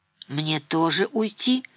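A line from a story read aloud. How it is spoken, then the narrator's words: Quiet question. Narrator (Russian): спросил Дима тихо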